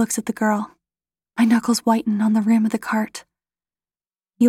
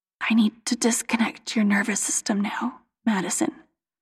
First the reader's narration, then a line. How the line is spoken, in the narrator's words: whispers